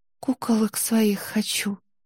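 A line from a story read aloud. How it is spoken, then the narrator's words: Barely audible sob. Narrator (Russian): еле слышно всхлипнула Несмеяна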